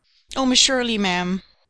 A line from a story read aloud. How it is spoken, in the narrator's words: gasped Charlotta